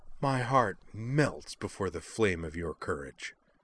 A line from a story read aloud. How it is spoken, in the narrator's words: Her voice oozed contempt as she went on